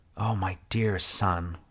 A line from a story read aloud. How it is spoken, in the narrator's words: I whispered, as my body involuntarily doubled over and I began to spasm